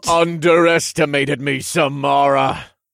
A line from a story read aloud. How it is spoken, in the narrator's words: I bellowed, and the clouds shook when I spoke